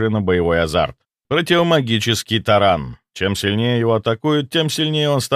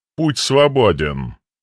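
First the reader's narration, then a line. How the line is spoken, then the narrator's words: Even, flat voice. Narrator (Russian): констатировал он ровным голосом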